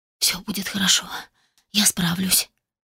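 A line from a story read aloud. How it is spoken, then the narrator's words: Barely audible whisper to self. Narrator (Russian): едва слышно прошептала сама себе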